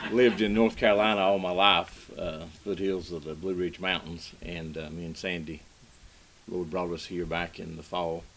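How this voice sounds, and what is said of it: Noticeable regional American accent. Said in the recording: “Bear with me with my accent... I never knew I had an accent”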